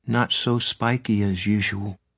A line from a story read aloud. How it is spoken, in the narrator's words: he said sadly